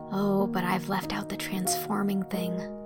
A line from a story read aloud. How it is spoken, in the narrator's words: said Anne softly